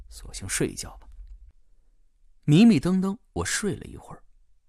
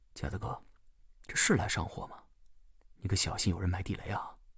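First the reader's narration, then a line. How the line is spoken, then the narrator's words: Low-voiced question. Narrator (Chinese): 我低声问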